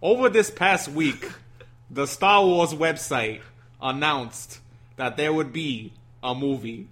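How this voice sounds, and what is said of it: Put-on Brooklyn accent. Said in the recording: “reveal your news in a Brooklyn accent”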